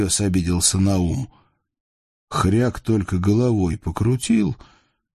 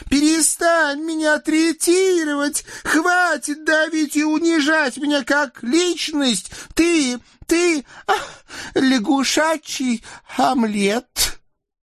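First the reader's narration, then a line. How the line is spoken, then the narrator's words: Hysterical shout. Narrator (Russian): да как закричит истерическим голосом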